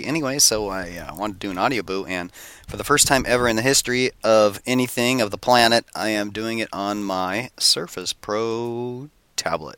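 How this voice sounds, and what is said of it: Sick, congested-sounding voice. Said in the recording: “As you can tell from my voice, I'm a little under the weather... Got the cold.”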